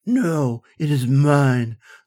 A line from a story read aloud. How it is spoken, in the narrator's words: slurred the god